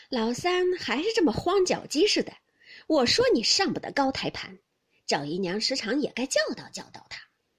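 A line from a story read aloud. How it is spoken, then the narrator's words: Laughing. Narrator (Chinese): 凤姐笑道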